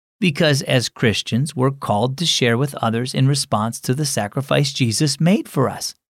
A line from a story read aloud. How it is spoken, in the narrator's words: said Dad